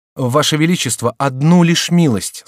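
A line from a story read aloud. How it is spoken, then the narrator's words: Plain. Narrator (Russian): сказал Жуаес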